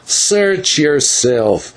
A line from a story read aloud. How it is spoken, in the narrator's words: answered Don Smith sullenly